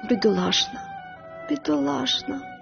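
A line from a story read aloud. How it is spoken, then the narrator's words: Quiet repetition. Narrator (Ukrainian): повторювала вона тихо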